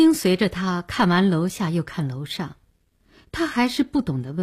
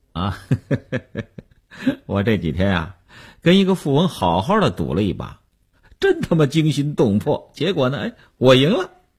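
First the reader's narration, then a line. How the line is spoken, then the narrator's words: Smiling. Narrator (Chinese): 刘文庆笑笑说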